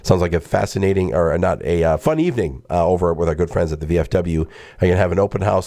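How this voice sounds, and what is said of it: Slightly scratchy voice. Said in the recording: “my voice is starting to get a little scratchy here”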